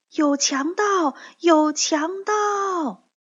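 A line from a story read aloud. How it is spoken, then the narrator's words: Loud shout. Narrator (Chinese): 草莓姑娘大声喊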